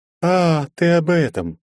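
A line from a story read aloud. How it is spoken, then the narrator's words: Lighthearted laugh. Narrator (Russian): легкомысленно рассмеялась она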